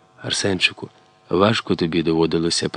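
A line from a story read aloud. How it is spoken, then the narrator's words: Whispered. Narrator (Ukrainian): прошепотіла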